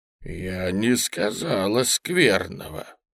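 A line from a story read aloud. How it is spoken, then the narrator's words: Gloomy voice. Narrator (Russian): проговорила она каким-то сумрачным голосом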